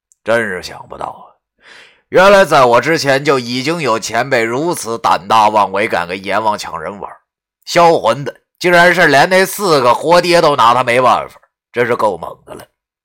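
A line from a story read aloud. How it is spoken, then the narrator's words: Inner sigh of admiration. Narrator (Chinese): 我 心中感叹道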